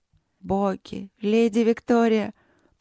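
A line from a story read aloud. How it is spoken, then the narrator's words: Grateful moan. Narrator (Russian): простонала благодарно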